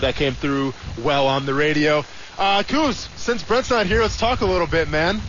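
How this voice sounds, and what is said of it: Usual voice. Nothing is said of it.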